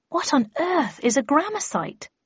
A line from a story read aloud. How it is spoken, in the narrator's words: I asked, looking nervously about